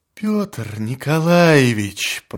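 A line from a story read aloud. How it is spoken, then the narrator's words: Deputy prosecutor moaning. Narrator (Russian): простонал товарищ прокурора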